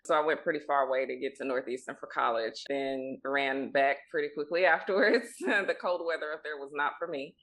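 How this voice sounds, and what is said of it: Mississippi Southern American accent. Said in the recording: “I'm from Mississippi, if you can't tell from my accent.”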